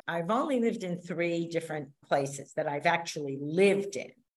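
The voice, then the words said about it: New York accent, fast talking. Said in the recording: “I have a New York accent. I'm a fast talking person.”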